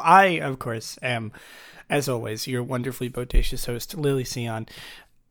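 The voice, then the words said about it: Groggy, sleepy voice. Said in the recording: “I just woke up. If you can't tell, my voice is a little groggy.”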